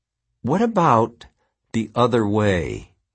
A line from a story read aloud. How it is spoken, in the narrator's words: said slowly